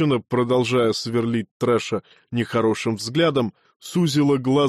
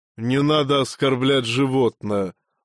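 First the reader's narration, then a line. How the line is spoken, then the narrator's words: Grim. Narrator (Russian): мрачно заявил Трэш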